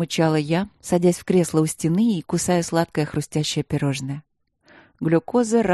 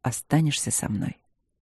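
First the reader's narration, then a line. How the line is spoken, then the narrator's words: Hoarse, expectant question. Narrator (Russian): спросил хрипло и как-то выжидающе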